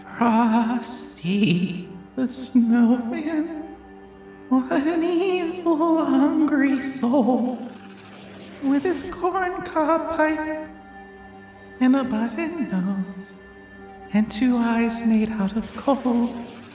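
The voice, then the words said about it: Creepy singing voice. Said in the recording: “a creepy voice sings a haunting tune”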